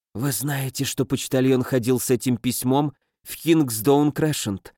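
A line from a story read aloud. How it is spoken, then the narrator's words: Quiet. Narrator (Russian): тихо сказала миссис Мильрой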